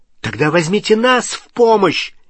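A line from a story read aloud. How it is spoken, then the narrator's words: Angry shout. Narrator (Russian): сердито крикнул Невилл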